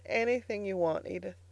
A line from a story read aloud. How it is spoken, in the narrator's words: he said brokenly